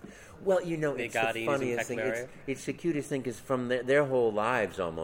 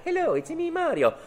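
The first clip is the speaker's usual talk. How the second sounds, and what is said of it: Mario cartoon character voice. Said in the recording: “Do that voice ... I've been the voice of Mario”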